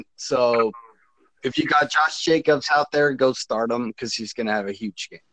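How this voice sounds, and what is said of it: Imitates another person's voice. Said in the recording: “Impersonation. I honestly thought you were Ernest there for a minute. ... Yeah, that sounded like Ernest. ... I tried my best impression of him.”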